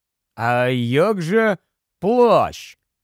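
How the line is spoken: Slow speech. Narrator (Ukrainian): повільно проказав Рон

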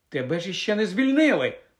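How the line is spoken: Exclaimed. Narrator (Ukrainian): вигукнула Герміона

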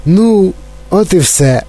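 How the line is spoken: Cheerful old man. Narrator (Ukrainian): весело озвався дідунь Джо

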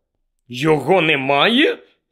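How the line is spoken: Angry question. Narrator (Ukrainian): сердито перепитав Гаррі

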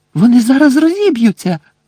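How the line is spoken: Shrieking. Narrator (Ukrainian): заверещала Герміона

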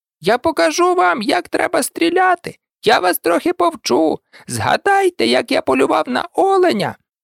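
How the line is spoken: Squeaking. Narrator (Ukrainian): той запищав

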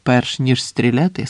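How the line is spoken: Plain. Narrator (Ukrainian): сказав Роберт

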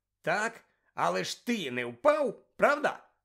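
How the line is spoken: Cheerful exclamation. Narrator (Ukrainian): весело вигукнув Амос

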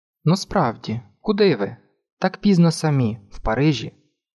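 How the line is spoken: Calm question. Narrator (Ukrainian): Ще раз спокійно спитав він

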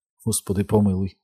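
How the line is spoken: Whispered. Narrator (Ukrainian): прошепотіла Беверлі

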